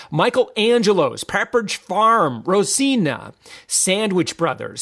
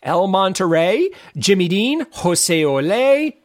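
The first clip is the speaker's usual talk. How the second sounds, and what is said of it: Put-on Spanish accent. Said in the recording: “You like my authentic Spanish accent?”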